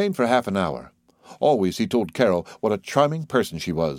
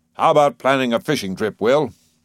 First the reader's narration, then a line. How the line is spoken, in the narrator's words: Bresnahan rumbling